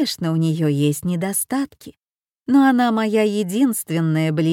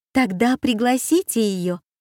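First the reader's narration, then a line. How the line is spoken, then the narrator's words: Lively exclamation. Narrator (Russian): воскликнула Аня с живостью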